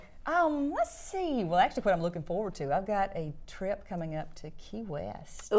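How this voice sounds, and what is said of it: Southern American accent. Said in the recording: “this Southern accent. It's mine.”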